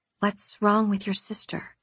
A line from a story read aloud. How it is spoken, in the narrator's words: I whispered